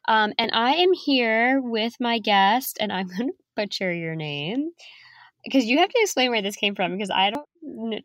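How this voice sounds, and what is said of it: Sick, funky-sounding voice. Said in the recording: “I will apologize in advance for my voice. I'm just getting over the flu, so my voice sounds really funky.”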